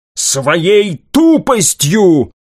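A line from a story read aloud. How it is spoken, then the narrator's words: Angry shout. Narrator (Russian): зло выкрикнул опальный маг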